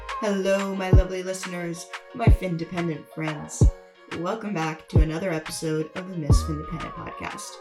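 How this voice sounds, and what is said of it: Sick, lowered, nasal voice. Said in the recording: “I got a little sick, and as you can tell, my voice has dropped probably like 6 decibels ... way more nasally”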